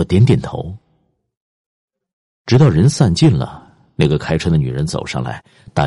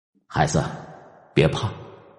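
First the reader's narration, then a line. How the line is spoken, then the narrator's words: Soft, gentle. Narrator (Chinese): 他轻声说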